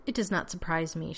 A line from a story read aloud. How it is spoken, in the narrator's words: she said dryly